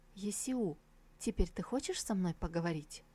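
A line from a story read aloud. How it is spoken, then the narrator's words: Quiet question. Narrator (Russian): тихо спросила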